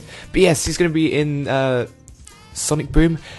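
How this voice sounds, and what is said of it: Usual voice. Nothing is said of it.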